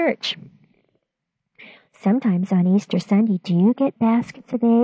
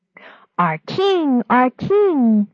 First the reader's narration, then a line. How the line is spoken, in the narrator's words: the people cried